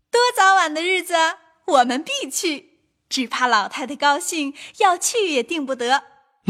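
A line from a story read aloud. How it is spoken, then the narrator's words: Women laughing together. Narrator (Chinese): 李纨、凤姐儿都笑道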